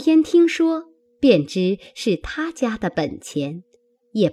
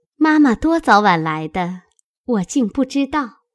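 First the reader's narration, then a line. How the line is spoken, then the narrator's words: Laughing. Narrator (Chinese): 宝钗笑道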